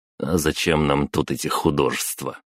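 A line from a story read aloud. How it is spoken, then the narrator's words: Scoffing snort. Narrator (Russian): хмыкнул я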